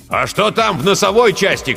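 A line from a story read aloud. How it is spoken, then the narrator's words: Shout. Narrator (Russian): крикнул Жирилло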